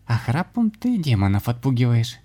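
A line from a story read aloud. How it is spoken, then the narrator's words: Laughing. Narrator (Russian): засмеялась Анна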